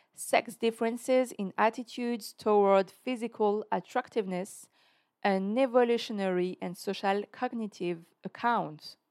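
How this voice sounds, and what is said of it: French-accented English. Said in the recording (French): “J'espère que tu aimes mon accent anglais”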